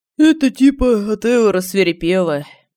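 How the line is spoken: Sleepy reply. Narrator (Russian): сонно ответил Семен

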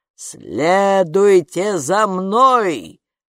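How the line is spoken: Giant barking. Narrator (Russian): рявкнул великан

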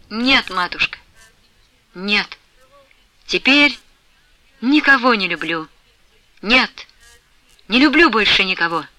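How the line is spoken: Firm but halting, agitated. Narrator (Russian): твердым голосом, но от сильного волнения, перерывая почти на каждом слове речь свою, проговорила Флёнушка

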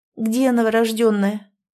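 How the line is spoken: Trembling voice. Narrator (Russian): дрожащим голосом уточнила княгиня

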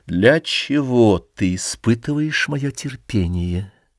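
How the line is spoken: Slow, deliberate. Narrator (Russian): он медленно выговорил

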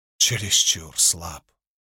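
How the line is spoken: Whisper. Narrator (Russian): прошептал он

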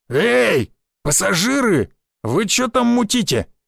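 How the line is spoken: Shouted call. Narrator (Russian): выкрикнул опухший

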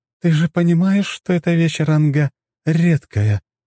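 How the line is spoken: Strange voice, question. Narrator (Russian): странным голосом спросила Сафелия

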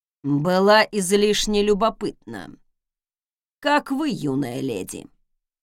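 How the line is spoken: Dry curt remark. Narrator (Russian): Сухо бросил дворецкий

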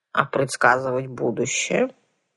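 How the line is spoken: Grumbling voice. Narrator (Russian): брюзгливым голосом осведомила сухопарая дама с крючковатым носом

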